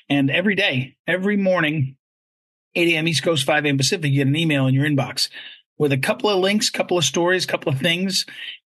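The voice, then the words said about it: Worn, hoarse voice. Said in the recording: “you can hear my voice is a shot a little bit”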